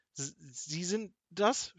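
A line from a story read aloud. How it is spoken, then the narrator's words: Stammering. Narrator (German): stotterte Kasperl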